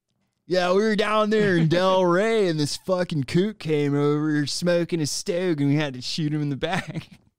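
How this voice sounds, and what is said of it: Put-on Californian surfer accent. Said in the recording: “This could easily morph into a California accent.”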